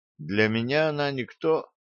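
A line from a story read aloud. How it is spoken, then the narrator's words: Calm reply. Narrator (Russian): спокойно ответил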